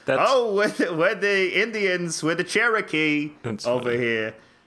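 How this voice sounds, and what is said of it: Put-on stereotyped Jewish accent. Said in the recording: “I'm just going to do a Jew voice. ... It's the go-to voice.”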